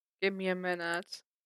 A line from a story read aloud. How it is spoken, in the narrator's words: Clint muttered